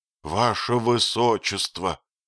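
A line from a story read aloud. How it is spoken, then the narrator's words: Pleading voice. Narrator (Russian): начал он снова молящим голосом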